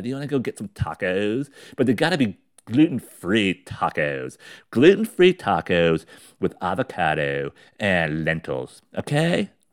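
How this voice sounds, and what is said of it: Put-on California accent. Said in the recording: “California. The SUS, oh my God.”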